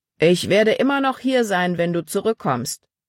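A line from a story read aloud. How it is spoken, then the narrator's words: Calling after her. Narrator (German): rief Paul ihr nach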